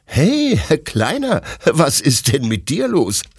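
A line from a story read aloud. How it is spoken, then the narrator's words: Asks, laughing. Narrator (German): fragt Detlef lachend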